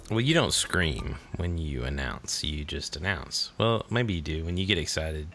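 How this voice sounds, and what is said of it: Voice several octaves lower. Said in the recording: “my voice is a few octaves lower for screaming for a couple weeks”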